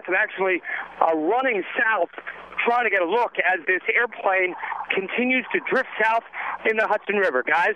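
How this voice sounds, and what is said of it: Out of breath. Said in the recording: “I'm a little out of breath.”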